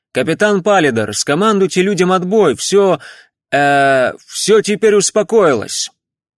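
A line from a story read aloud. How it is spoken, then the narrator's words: Obedient shout. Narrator (Russian): Тайрер послушно выкрикнул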